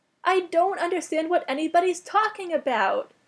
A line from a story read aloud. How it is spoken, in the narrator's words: wailed Nepeta